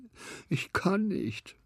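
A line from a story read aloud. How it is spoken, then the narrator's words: Sighing. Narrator (German): seufzte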